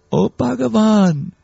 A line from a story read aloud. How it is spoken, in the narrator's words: they must have said very sweetly